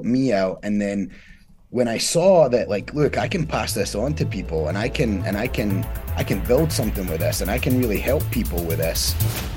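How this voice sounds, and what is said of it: Scottish accent. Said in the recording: “when people hear your accent, they're gonna wonder for which country ... I'm from Scotland, born in Scotland, was raised there”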